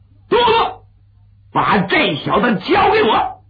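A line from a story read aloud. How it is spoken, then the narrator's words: Loud shout. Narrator (Chinese): 蔡勋…高声喊一声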